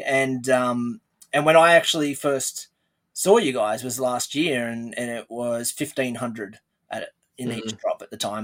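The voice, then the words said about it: Australian accent. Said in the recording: “as most people would know and probably tell from the accent, I'm from Australia”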